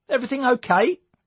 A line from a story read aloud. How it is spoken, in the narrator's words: asked Tommy chirpily